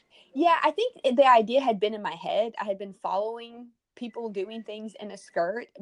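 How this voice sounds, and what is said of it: Texan southern American accent. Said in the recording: “I love your accent... I'm from Texas... This is like a proper southern accent”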